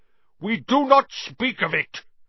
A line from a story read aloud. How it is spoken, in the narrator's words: said Aragog fiercely